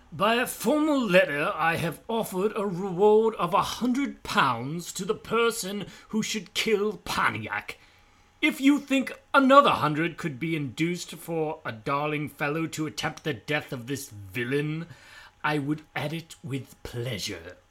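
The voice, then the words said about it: Uppity British accent. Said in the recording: “a really uppity British accent”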